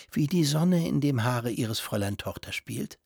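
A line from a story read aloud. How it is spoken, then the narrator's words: Continued whispering. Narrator (German): fuhr wieder flüsternd fort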